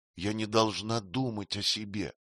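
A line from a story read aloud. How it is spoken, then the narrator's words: Trembling voice. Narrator (Russian): ответила она дрожащим голосом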